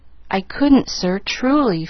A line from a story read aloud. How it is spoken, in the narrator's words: faltered Pollyanna